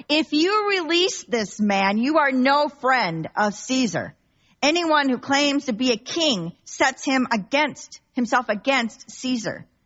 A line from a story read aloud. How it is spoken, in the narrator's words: the crowd shouted